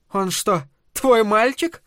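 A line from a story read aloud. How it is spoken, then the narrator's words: Laughing. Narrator (Russian): Лиз засмеялась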